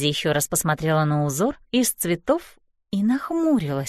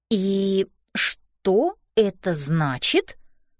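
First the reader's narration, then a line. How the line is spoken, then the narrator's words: Slow question. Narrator (Russian): медленно спросила Мэйзи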